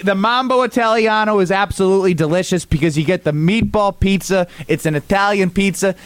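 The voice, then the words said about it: Put-on Italian accent. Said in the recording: “Look at me with my accent. I'm pretending like I'm Italian.”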